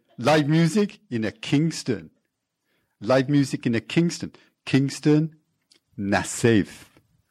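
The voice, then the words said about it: Put-on Jamaican accent. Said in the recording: “That's my best Jamaican accent, I'm sorry.”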